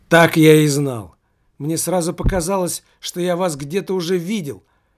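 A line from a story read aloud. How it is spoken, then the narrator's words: Street kid's exclamation. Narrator (Russian): воскликнул беспризорник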